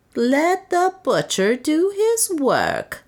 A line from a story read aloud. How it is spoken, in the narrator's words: mocked Soa